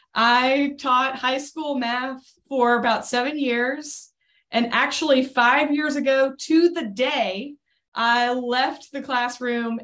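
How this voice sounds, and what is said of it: Southern US Tennessee accent. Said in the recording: “My home is Nashville, Tennessee, which you might be able to tell based on my accent.”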